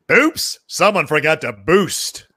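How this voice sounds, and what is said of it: Commercial voiceover character voice. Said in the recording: “you did the voiceover for the Minute Maid boost ... Are you able to do that voice?”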